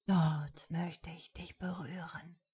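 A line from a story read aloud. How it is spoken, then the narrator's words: Breathy whisper. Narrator (German): hauchte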